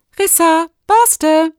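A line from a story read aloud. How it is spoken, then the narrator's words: Called out. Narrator (German): rief sie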